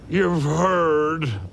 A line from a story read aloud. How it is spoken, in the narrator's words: he bellowed